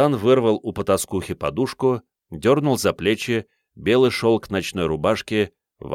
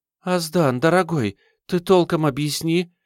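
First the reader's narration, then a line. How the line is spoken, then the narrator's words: Frightened mutter. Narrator (Russian): испуганно пробормотала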